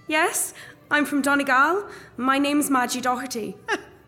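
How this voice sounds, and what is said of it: Irish accent. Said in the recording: “You're from Ireland. I can tell by your accent.”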